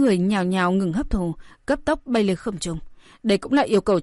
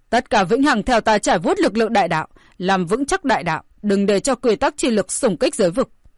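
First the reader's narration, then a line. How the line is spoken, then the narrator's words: Loud commanding shout. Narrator (Vietnamese): ông lập tức cao giọng quát to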